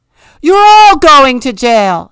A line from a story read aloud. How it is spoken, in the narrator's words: screamed the king